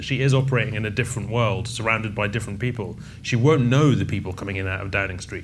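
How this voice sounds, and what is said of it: Strong Scottish accent. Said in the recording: “as you'll tell from my strong, strong accent, I'm Scottish.”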